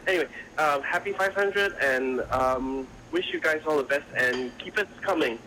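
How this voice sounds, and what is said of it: American accent. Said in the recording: “He sounds so American.”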